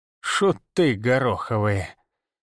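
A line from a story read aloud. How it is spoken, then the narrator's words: Spiteful creaky old woman. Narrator (Russian): злобно проскрипела бабка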